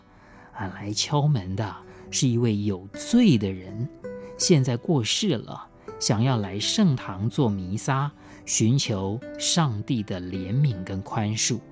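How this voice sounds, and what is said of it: Very soft, faint voice. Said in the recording (Chinese): “外面的指挥官是用更轻、更微弱的声音说”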